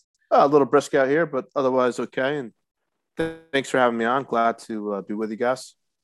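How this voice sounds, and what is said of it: Rough, hoarse voice from illness. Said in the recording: “a little under the weather ... Apologize for my voice. Is a little rough today”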